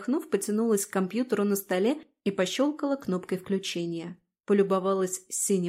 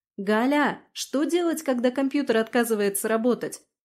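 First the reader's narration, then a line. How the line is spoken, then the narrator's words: Shouted toward another room. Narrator (Russian): крикнула я в сторону туалета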